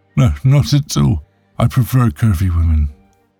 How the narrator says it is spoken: he moaned

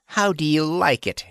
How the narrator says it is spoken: he laughed

